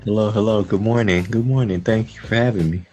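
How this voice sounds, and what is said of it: Deep, preacher-like just-woke-up voice. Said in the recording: “You sound like a deacon getting ready to preach.”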